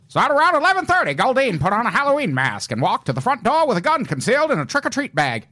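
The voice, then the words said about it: Old-timey narrator voice. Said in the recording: “that was a really good old-timey voice”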